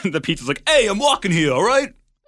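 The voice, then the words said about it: Put-on New York accent. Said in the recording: “my impression of New York City pizza ... a terrible New York impression”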